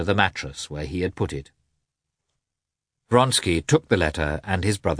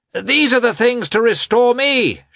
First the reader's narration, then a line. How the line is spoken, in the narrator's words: shouted Petritsky on seeing the newcomers